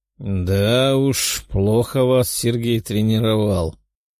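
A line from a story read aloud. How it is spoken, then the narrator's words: Grumble. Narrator (Russian): проворчал Леонард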